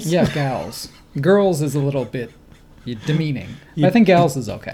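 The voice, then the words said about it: Slight put-on Southern accent. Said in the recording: “You put a little bit of a southern... into that.”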